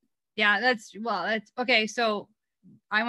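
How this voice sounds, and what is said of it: Usual voice. Nothing is said of it.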